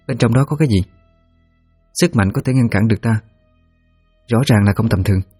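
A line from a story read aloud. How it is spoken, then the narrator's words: Soft question. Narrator (Vietnamese): Thanh khẽ hỏi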